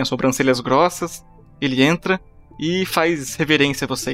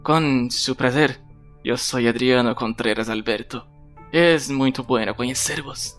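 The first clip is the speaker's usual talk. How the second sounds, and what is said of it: Character voice with put-on accent. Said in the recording (Portuguese): “esse é seu novo sotaque? Ah, pois, este sempre foi sotaque de eu”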